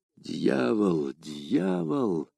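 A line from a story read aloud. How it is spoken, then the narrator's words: Muttering. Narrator (Russian): пробормотал Д'Артаньян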